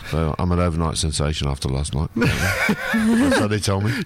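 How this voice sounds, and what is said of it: British accent. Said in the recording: “from your accent, you're one of my guys from the UK”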